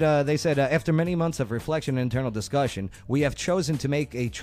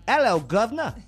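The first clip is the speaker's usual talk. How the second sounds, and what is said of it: Put-on English accent. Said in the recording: “How do you do an English accent?... Yeah, that's it. You got it.”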